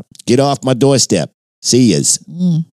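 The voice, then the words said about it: Attempted Boston accent, sounds Brooklyn. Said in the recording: “my attempt at a Southie accent ... Is that Southie? ... Nope, I think that was more Brooklyn”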